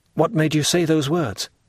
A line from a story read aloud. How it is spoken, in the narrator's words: asked the young man, in an anxious tone